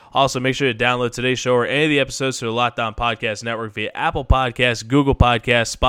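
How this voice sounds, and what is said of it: Tired, worn-out voice. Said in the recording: “I'm a little bit jet lagged, so if you could hear it in my voice ... a little bit of wear and tear on the vocal cords.”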